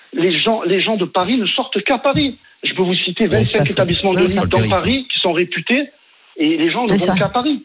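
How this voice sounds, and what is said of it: Non-Parisian regional French accent. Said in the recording (French): “vous entendez mon accent, je ne suis pas parisien”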